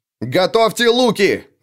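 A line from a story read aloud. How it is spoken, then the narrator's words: Barked. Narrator (Russian): рявкнул Лео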